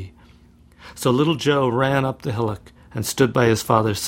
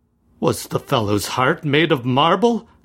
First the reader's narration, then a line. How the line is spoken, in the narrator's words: cried Bartram, in some perplexity at this phenomenon